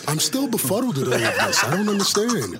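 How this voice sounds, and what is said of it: Imitates another person's voice. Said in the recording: “best Joe Biden impression”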